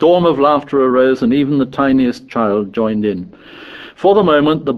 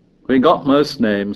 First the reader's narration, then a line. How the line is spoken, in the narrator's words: said Piggy